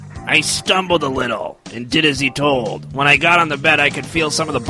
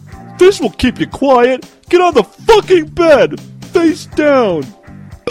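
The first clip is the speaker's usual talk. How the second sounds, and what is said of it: Imitates another person's voice. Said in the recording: “my impression is spot on”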